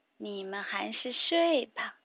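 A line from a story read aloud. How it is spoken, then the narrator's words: Soft explanation. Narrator (Chinese): 巴蒂轻声解释道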